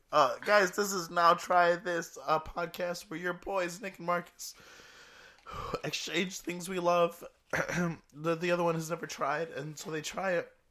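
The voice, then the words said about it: Sick, low, strained voice. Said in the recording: “I'm a little under the weather... Sounds like you're about to cry... I didn't realize how bad I was going to sound... It's going to go back and forth between being really low and weird”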